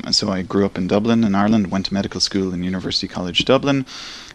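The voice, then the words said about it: Irish accent. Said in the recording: “as you can probably tell from my accent, I'm from Ireland.”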